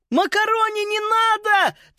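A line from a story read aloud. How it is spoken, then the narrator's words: Quick shout. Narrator (Russian): только и успела крикнуть Фрида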